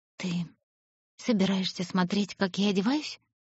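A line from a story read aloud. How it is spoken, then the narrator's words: Breathy. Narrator (Russian): выдохнула она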